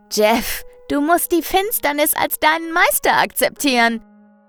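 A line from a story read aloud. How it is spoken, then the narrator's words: Fanatical call. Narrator (German): ruft fanatisch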